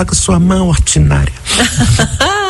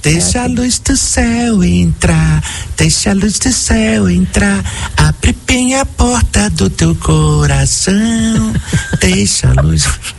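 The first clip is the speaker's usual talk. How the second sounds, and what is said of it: Sung imitation of another person's voice. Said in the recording (Portuguese): “minha imitação favorita ... Porque ela é muito precisa, gente. ... É perfeita.”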